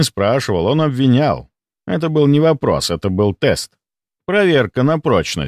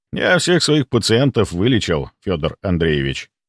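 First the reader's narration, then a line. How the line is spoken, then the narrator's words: Calm. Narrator (Russian): ответил я спокойно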